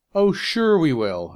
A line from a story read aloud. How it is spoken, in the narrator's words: exclaimed Sam, full of confidence